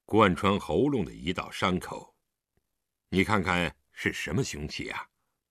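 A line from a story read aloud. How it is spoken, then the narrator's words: Low voice. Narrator (Chinese): 狄仁杰对李元芳低声道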